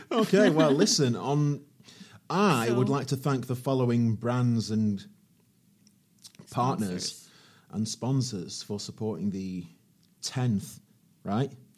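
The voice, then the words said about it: English accent. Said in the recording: “the English accent like you can”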